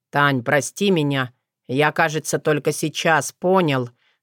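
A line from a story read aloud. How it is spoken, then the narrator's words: Hoarse wheeze. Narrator (Russian): Засипел страдалец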